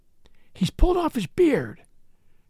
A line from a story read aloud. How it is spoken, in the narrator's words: cried Gooseberry